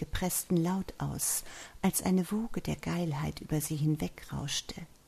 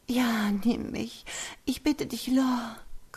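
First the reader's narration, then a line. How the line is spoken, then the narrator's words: Panting. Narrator (German): keuchte sie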